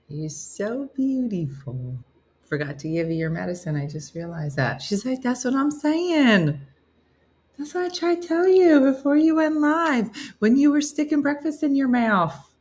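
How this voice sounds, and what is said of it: Strong accent, slightly European. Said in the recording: “you have a strong accent ... It almost has a touch of European to it.”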